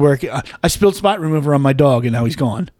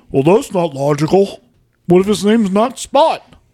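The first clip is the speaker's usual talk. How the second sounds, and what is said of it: Imitates another person's voice. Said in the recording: “That was a perfect impression... I thought you were talking for a second.”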